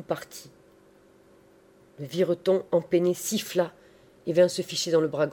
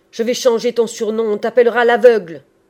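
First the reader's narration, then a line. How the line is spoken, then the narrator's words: Shouting. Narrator (French): cria-t-il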